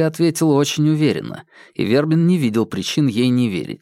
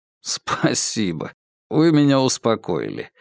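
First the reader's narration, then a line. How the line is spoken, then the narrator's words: Laughing reply. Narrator (Russian): рассмеялся в ответ Вербин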